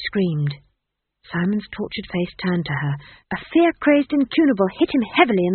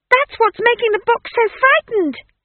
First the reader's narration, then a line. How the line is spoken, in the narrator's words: shrieked in his ear